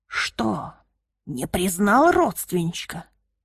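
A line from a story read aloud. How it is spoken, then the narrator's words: Rasping. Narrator (Russian): хрипел он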